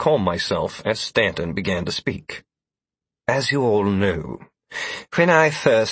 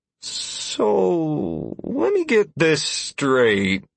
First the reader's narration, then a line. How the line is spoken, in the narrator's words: Constantine said slowly